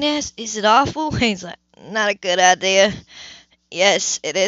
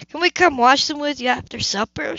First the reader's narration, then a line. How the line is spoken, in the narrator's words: Shane pleaded